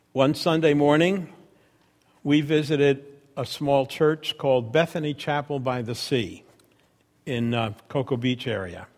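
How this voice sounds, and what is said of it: New York accent. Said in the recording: “from New York, you can hear my accent”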